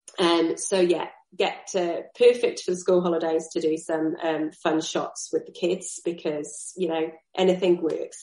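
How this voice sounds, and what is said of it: Strained, failing voice. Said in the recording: “My voice is feeling like it's about to give up”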